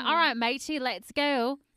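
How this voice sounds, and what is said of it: Put-on British/Australian accent. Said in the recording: “it's between, like, British and Australian ... That was really impressive.”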